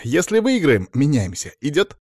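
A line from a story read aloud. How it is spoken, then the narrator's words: Snorting remark. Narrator (Russian): Блондин хмыкнул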